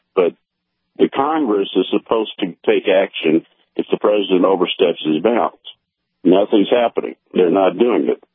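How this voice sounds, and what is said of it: Hoarse, strained voice. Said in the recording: “excuse me, I'm losing my voice, I think. I've been doing so many shows.”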